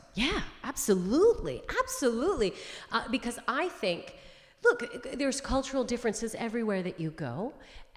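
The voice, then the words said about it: Canadian accent. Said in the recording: “You grew up in Canada, right? So that's where the accent's from.”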